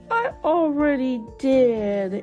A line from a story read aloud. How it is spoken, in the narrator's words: Emma sighed